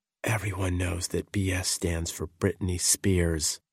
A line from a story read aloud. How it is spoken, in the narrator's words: After continuous prodding, she whispered ever so softly